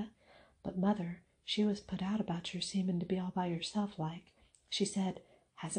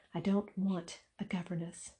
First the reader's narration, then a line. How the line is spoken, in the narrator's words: said Mary sharply